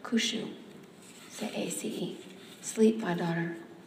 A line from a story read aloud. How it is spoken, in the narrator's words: she whispered